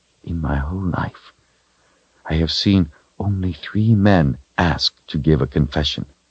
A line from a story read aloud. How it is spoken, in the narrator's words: she whispered to the wizard